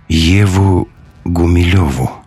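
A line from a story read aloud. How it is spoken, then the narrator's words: Sleepy answer. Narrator (Russian): все так же сонно ответил человек с разными глазами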